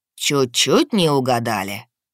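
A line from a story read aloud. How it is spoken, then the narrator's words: Snorting. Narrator (Russian): хмыкнул гад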